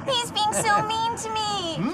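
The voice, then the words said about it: Baby voice. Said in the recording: “baby voice.”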